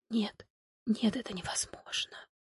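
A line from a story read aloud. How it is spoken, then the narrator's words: Trembling whisper. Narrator (Russian): прошептала она дрожащим голосом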